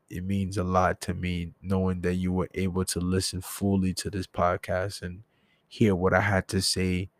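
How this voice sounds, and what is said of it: Low, raspy, tired voice. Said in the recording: “I'm sorry if I sound very low or if I sound very raspy. I'm kind of tired. ... made my throat pause a little raspy”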